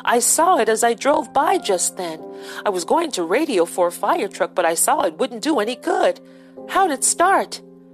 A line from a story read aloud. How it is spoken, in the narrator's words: exclaimed